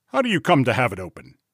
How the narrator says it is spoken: Utterson, and then sharply

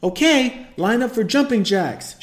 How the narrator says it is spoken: she yells at the top of her lungs

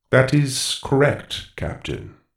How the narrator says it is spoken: Goro said slowly

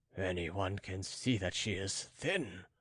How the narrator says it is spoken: muttered the king

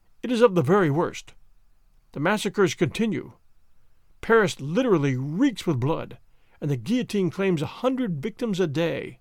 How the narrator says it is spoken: he said sadly

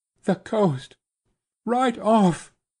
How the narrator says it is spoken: panted

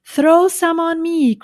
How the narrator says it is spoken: cried Avery

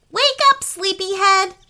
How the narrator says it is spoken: shouted her brother Eddie from her doorway

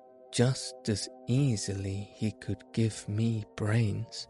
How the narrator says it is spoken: said the Scarecrow

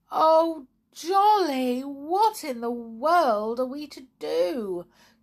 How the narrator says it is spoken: cried Tiptoe

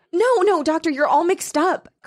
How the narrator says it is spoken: cried Mrs

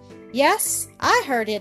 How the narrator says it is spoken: answered Don

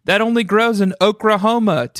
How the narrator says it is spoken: Tamika shouted, cracking up

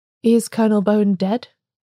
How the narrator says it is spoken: said the smith quite calmly

